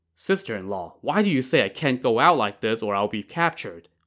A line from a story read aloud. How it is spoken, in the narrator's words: Wu Song asked